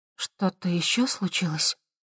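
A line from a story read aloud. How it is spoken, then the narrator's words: Quiet question. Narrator (Russian): тихо спросила Хавея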